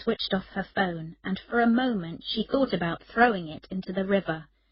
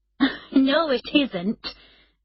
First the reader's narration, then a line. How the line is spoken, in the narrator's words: Emma replied, laughing